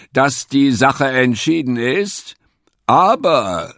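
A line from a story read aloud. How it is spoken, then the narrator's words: Calling over uproar. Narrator (German): rief nun die Füchsin in den aufkommenden Tumult hinein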